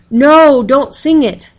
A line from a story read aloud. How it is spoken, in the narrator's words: the chief devil shouted